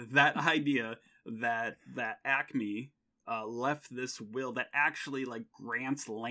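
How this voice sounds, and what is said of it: Usual voice. Nothing is said of it.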